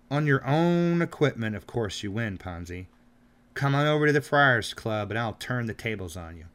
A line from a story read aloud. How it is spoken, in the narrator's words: he exclaimed